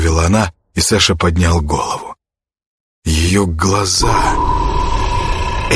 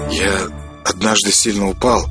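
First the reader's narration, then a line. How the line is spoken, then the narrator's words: Mumbling. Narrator (Russian): промямлил он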